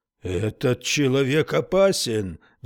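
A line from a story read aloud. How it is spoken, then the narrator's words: Roaring. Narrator (Russian): взревел он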